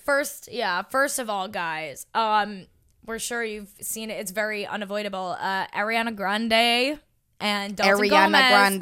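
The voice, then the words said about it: Long Island accent. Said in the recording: “just the way you say husband. It. You have a Long Island accent.”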